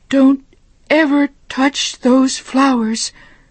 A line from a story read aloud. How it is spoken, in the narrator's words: she cried